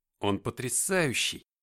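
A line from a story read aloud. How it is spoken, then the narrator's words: Mutter. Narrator (Russian): пробормотал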